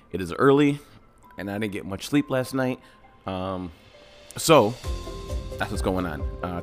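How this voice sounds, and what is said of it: Raspy, tired voice. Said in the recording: “I apologize for my voice right now. It's a little raspy or a little something.”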